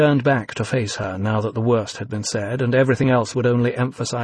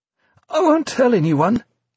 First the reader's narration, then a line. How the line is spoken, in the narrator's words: pleaded, desperation giving way to terror